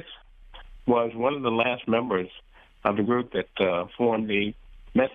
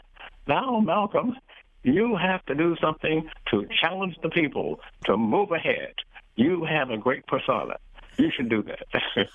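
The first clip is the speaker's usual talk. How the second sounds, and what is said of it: Impression of Grace Lee Boggs. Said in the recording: “my best Grace impression”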